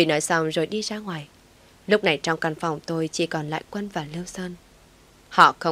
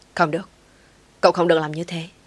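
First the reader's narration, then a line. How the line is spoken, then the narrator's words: Sudden sharp snap. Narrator (Vietnamese): Bỗng dưng Lưu Sơn gắt lên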